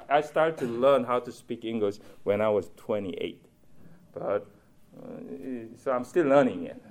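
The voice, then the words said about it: Strong non-native English accent. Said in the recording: “English is not my first language, you can tell ... I have a strong accent”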